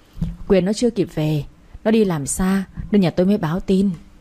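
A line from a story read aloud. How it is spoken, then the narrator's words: Gentle reply. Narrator (Vietnamese): Bà Quế nghe vậy dịu dàng đáp lại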